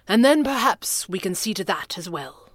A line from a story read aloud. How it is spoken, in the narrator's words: he said in his clipped proper accent